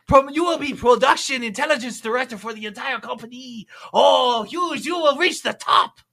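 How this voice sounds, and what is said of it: Mishmash of several put-on accents. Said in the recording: “That accent was like a mishmash of like three different accents.”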